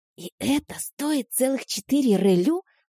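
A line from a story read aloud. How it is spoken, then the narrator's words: Whispered question. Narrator (Russian): шепотом спросила я у подруги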